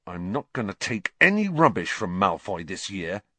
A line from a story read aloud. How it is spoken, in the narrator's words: he said angrily